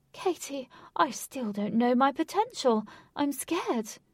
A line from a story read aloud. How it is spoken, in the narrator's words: The king, holding the queen's hand tight and nervously, said